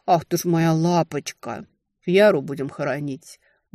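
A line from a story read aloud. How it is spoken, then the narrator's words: Grumbled. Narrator (Russian): буркнул Лёшка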